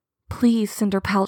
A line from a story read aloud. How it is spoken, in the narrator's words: she whispered